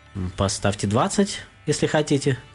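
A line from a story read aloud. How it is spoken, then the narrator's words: Calm reply. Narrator (Russian): спокойно ответил миллионер гостю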